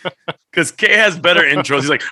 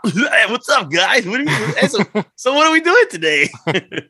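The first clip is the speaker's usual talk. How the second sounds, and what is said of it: Elmer Fudd cartoon voice impression. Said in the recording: “That's Elmer Fudd. My best Elmer Fudd impersonation of you.”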